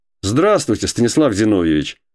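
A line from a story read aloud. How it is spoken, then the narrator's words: Joyful warm greeting. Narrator (Russian): сказал он радостно, будто 100 лет не разговаривали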